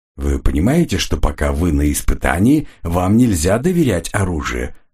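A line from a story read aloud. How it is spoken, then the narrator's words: Plain. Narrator (Russian): сказал Эмис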